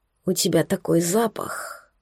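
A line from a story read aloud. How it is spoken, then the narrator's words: Husky whisper. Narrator (Russian): прошептал с хрипотцой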